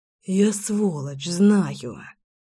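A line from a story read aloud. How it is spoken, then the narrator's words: Breathed out. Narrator (Russian): выдохнул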